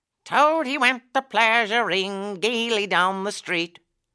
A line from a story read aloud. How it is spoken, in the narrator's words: the chief weasel began in a high, squeaky voice